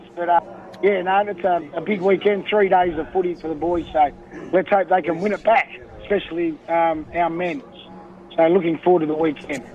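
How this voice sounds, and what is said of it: Strained, struggling voice. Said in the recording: “Your voice sounds like it's struggling a little bit there”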